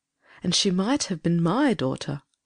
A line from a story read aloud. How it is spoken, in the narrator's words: murmured the old lady